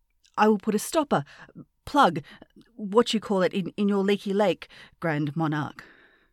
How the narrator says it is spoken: said the prince

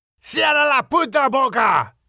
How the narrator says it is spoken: Miguel shouted

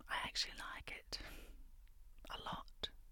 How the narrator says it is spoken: whisper

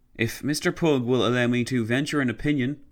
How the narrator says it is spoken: Walter Cameron replied

